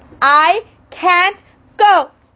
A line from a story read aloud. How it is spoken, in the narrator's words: I cried